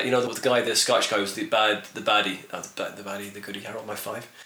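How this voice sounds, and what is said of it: Usual voice. Nothing is said of it.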